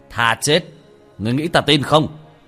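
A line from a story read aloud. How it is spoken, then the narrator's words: Mocking loud laugh. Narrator (Vietnamese): Thần tôn cười lớn một tiếng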